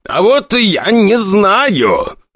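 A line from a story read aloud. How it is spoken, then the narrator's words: Nearly shouting, frustrated. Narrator (Russian): Николай Григорьевич почти кричал, но понимал, что не на того надо срываться, а на Игоря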